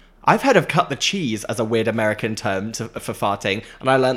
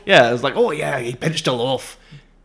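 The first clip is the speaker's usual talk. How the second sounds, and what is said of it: Put-on Scottish accent. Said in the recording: “How's my Scottish accent?”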